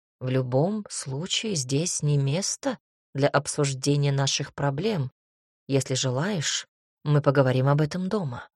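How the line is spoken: Soft. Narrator (Russian): мягко сказал князь Вяземский

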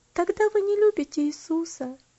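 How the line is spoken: Sad reply. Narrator (Russian): печально ответила она

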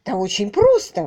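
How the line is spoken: Exclaimed. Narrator (Russian): воскликнул инспектор

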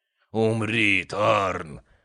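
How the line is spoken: Growling. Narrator (Russian): рычал он

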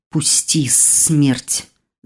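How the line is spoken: Hissed. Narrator (Russian): зашипел блондин

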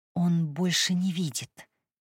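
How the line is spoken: Tearful whisper. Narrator (Russian): прошептала она наполненным слезами голосом

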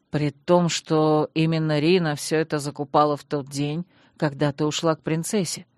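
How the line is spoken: Calm explanation. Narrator (Russian): спокойно пояснил Танрад

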